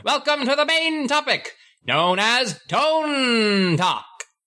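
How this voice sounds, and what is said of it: Exaggerated announcer voice. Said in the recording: “my announcer voice ... the announcer voice”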